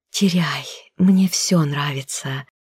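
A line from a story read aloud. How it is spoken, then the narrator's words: Breathed softly. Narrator (Russian): выдохнула в его губы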